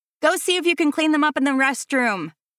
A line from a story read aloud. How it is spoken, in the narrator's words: Veronica yells over the music